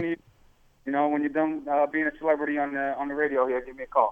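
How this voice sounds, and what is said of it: Strong New York accent. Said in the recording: “he's still got that strong New York accent ... he's an Italian New Yorker”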